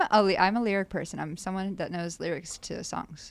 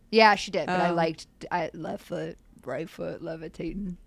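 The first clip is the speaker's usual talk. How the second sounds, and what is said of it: Imitates another person's voice. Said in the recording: “That's actually a really good impression.”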